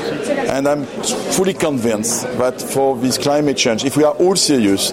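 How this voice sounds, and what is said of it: French-accented English. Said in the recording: “that was not President Obama practicing his French accent. That was the CEO of the French oil company Total, Patrick Pouyanné”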